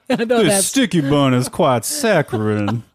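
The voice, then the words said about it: Exaggerated put-on Southern accent. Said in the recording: “That's Southern that... I can't handle that accent. That's so, you sound like Foghorn Leghorn.”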